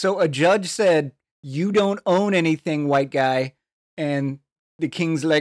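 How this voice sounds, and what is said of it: Usual voice. Nothing is said of it.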